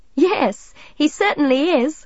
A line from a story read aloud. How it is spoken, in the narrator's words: Midge laughed